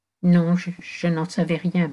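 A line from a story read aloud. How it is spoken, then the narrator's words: Stammering woman. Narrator (French): balbutia-t-elle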